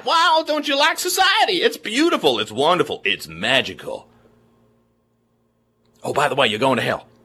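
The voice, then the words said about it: Mocking, poorly done Southern accent. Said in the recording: “making fun of their accent. But trust me, I'm not competent enough to even do a good Southern accent.”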